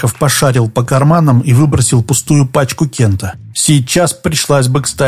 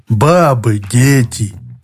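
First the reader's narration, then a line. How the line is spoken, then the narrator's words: Muffled, hollow. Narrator (Russian): глухо повторил Иван Иванович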